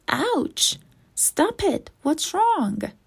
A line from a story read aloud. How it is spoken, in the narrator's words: cried Keeper